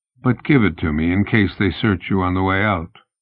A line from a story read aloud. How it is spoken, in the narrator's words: said in a low voice